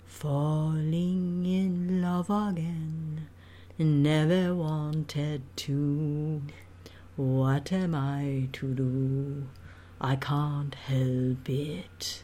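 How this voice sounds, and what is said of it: Sung imitation of another person's voice. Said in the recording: “That's a pretty good imitation. ... That was actually not Marlena. That was me.”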